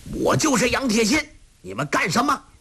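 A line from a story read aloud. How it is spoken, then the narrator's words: Angry loud shout. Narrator (Chinese): 杨铁心怒气天鹰 大声喝道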